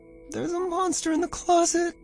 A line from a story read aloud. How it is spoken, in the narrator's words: he sobbed